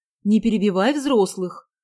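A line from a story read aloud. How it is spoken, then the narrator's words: Stern. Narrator (Russian): строго сказала Анна Андреевна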